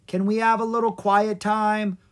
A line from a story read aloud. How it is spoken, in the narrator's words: pleaded Mr